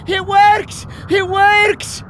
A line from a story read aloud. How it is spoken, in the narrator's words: Angus came streaming back, shouting